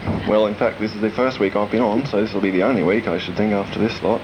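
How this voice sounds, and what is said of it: Australian accent. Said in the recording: “as you can see by the Australian accent which I'm at the moment speaking in ... you're definitely very Australian”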